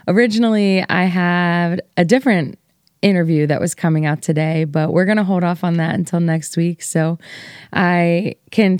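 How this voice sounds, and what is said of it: Tired-sounding voice. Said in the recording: “You might be able to hear in my voice that I am pretty tired today”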